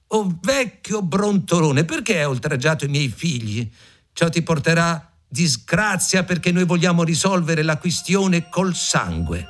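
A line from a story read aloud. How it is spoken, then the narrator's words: Shouted. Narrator (Italian): gridò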